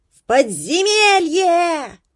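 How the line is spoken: Mice yelling in unison. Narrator (Russian): дружно орали мыши

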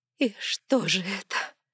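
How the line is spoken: Sobbing. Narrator (Russian): всхлипнула Эдосих

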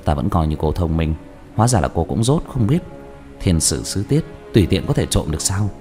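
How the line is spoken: Lowered voice, laughing. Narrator (Vietnamese): Diệp Thiếu Dương rào hoạt cười hạ giọng

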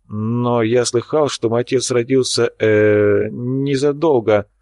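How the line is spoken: Forced out. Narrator (Russian): выдавил он из себя

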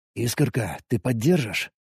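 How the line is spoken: Whisper. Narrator (Russian): прошептал я

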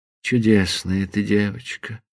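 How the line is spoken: Tender, guilty whisper. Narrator (Russian): прошептал он с нежной и виноватой улыбкой

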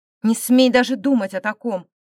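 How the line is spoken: Barked. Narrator (Russian): рявкнул Эмбрис

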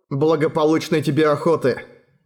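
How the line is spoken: Plain. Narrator (Russian): сказал Эрагон

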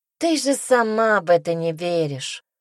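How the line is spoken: Sighing. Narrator (Russian): вздохнула Мира

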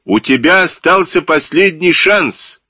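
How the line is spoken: Shouted. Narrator (Russian): крикнул майор

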